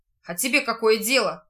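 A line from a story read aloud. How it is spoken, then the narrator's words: Rude curt retort. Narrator (Russian): грубо отрезал тот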